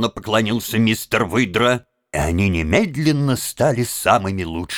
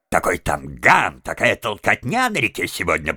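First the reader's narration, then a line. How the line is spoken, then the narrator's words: Grumbling. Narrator (Russian): проворчал мистер Выдра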